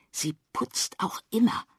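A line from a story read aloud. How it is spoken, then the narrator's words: Whisper. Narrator (German): flüstert Henry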